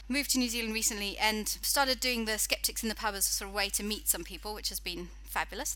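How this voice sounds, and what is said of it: British accent. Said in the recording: “my accent, I'm actually British”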